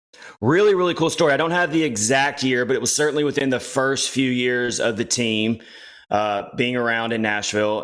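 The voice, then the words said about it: Tennessee Southern accent. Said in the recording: “You can tell by your accent, you're a Tennessee guy.”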